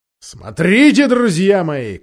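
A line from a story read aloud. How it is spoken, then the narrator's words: Shout. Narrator (Russian): крикнул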